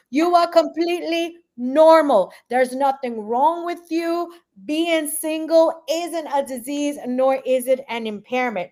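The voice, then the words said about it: New York accent. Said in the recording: “My New York accent coming out.”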